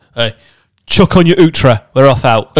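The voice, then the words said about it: Gruff put-on accent. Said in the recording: “you can say it with like a gruff accent”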